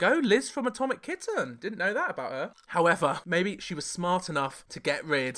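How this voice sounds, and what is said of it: Usual voice. Nothing is said of it.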